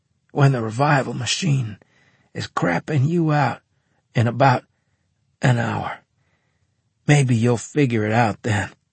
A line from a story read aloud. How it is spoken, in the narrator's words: I wheezed